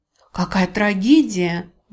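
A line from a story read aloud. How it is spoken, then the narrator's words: Exclaimed. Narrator (Russian): воскликнула миссис Батлер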